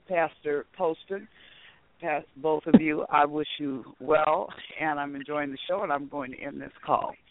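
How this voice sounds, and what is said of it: Strained, hoarse voice. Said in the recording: “Because I've been doing so much shouting, I'm losing my voice.”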